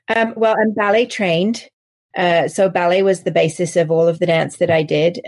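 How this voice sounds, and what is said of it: English accent. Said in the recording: “As you can probably tell from my accent, I'm English.”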